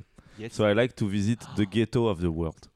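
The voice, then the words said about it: Heavy French accent in English. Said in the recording (French): “pire accent”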